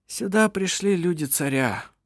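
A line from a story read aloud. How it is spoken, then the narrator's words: Sighing. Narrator (Russian): вздохнул Ировар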